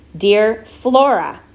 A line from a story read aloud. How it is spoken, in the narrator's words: said Flora's mother again in a louder, more insistent voice